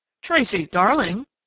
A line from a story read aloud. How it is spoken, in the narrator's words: Judge Marshall corrected, with a chuckle that sounded odd in the tensely silent room